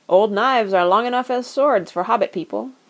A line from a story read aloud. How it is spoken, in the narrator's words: he said